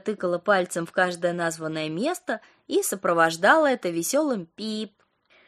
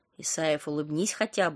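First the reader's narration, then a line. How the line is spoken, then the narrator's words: Woman whispering. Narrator (Russian): шептала Ника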